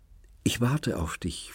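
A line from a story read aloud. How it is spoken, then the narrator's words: Whispering. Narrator (German): flüsterte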